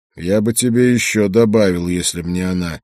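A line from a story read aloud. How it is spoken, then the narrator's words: Grim remark. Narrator (Russian): мрачно заметил я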